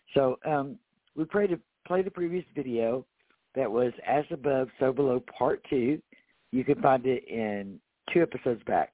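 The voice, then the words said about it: Sick-sounding, off voice. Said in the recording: “my voice sounds funny, I've been really, really sick. I had a bad allergic reaction ... bear with my voice right now”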